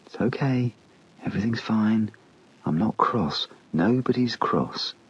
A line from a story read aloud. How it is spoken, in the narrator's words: said in a gentle, reassuring voice